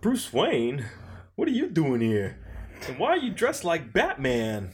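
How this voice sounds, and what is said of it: Christopher Walken impression. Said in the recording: “Christopher Walken ... Christopher Walken's accent”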